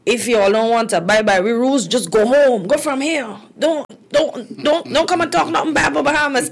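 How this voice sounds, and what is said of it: Imitated Bahamian woman's accent. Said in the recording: “I see the lady saying ... in her accent”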